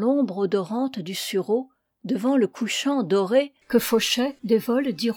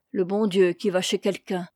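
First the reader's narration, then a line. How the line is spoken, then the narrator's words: Widow sighing. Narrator (French): soupira la veuve, en se signant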